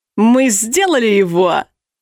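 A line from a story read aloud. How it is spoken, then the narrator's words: Proud yelling. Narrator (Russian): Гордо заорал блондин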